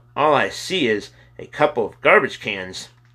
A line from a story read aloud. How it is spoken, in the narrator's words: He called out